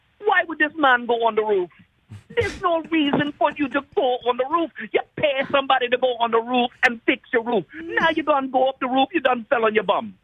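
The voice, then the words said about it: Imitated Trinidad and Tobago accent. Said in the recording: “my mom's from Trinidad and Tobago, so she's got the whole accent. And I actually do her voice”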